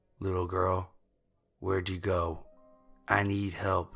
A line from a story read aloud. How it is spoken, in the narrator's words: in a rough voice